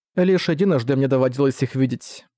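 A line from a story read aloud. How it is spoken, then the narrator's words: Plain. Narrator (Russian): сказала Аркана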